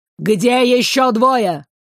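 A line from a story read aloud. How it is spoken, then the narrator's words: Menacing demand. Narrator (Russian): грозно вопросил ректор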